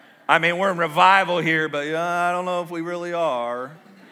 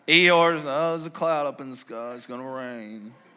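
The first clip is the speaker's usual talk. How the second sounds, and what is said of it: Gloomy Eeyore cartoon voice. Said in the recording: “This is my best Eeyore impression.”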